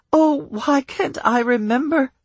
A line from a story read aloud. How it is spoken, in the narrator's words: She moaned